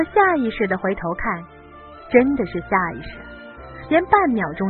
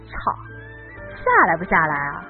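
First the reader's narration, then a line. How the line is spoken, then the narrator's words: Sudden blurt. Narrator (Chinese): 他忽然间冒出一句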